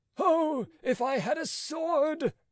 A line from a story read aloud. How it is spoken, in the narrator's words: cried Rateau